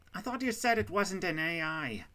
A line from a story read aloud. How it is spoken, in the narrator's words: the bull shouted as he tried to take cover behind the doorway